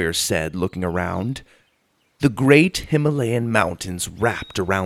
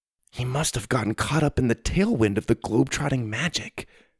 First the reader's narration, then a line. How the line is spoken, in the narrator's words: Suzie whispered to Grandpa